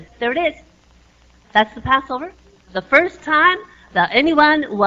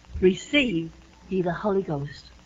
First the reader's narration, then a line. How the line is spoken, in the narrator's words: breathed on them and saith